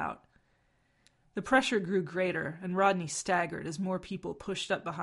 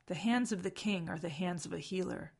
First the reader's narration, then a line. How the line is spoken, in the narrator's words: Rodney murmured to Ronan